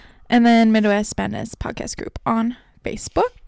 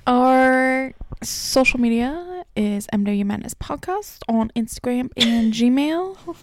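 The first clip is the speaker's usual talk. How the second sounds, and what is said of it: Put-on accent. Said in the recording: “I did a little accent.”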